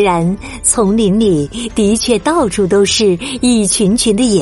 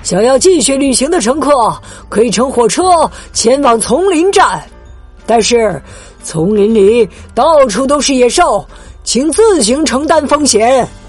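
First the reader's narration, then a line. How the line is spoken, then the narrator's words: Loud calling out. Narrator (Chinese): 导游高声的喊道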